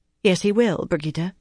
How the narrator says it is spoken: she went on more calmly

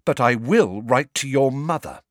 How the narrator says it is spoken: she said, her voice quivering with anger

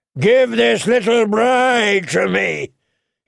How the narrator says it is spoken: he bellowed

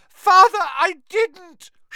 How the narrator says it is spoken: shrieked the boy in chains below

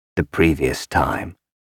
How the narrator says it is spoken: Helmar said hoarsely

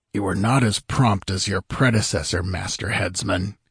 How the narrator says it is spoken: he grumbled

